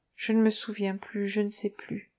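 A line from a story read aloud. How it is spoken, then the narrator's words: Murmured, eyes closing. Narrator (French): Elle murmura en fermant les yeux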